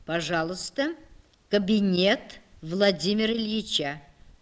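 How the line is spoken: Calm. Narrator (Russian): Инесса маленькая спокойно сказала

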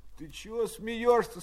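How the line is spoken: Sleepy voice behind partition. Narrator (Russian): спросил из-за перегородки сонным голосом Пущин

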